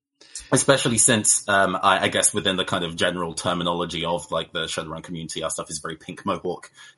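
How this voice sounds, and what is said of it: British accent. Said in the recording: “As you can tell by my voice, I'm from the UK.”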